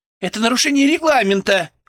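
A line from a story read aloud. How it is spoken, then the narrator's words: Shouting. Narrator (Russian): кричала журналистка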